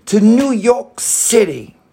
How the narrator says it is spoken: James exclaimed

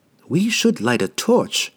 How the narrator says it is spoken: Regis began, but he stopped abruptly, frightened by the unintentional volume of his whisper

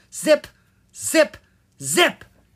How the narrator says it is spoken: she yelled loudly

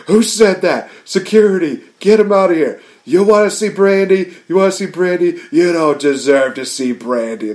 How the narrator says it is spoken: Cody just starts screaming

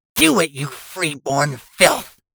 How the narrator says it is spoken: Catel hissed

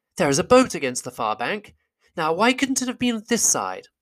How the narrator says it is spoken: Bilbo, kneeling on the brink and peering forward, cried

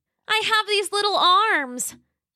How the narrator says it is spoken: Roxy cried

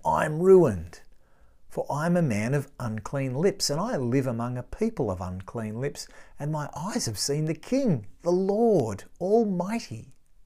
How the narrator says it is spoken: I cried

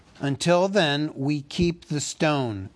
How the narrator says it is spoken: cried Bard

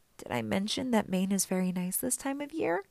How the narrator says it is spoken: he asked weakly

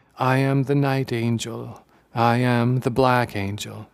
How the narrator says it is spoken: the two monks murmuring

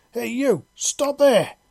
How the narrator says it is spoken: a man yelled, his power armour amplifying and somewhat distorting his voice

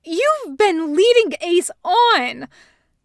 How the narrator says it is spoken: Thatch screeches in the background

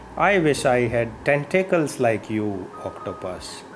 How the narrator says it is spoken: sighed Little Dolphin

